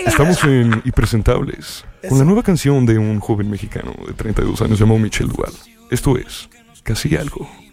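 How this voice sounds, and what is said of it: Radio announcer voice. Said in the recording (Spanish): “preséntala en radio... Con voz de locutor de radio”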